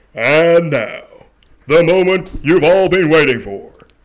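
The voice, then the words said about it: Booming ring announcer impression. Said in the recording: “Unless I do the Bruce Buffer.”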